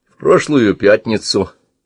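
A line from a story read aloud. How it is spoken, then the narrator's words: Calm. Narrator (Russian): спокойно ответил Гвидон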